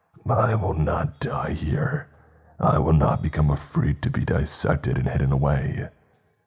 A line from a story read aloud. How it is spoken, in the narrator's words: snarled in a distorted voice